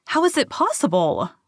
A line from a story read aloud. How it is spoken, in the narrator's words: cried Emma